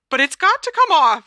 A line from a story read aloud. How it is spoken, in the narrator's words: squeaked Hermione